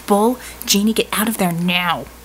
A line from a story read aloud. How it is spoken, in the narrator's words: she snarled